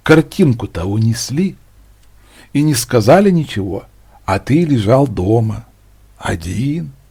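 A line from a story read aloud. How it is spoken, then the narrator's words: Whispering in the ear. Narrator (Russian): кто-то будто зашептал на ухо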